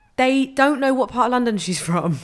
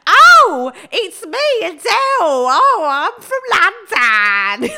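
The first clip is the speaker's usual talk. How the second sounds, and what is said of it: Exaggerated Cockney impression. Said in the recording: “They make out that she's like a fucking pearly queen... She does not have a Cockney accent... It's like Mrs. Lovett.”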